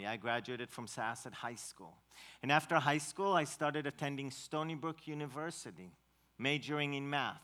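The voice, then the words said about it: Israeli accent in English. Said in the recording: “she recognizes my accent in English and she asked me if I'm Russian ... No, I'm not Russian, I'm Israeli”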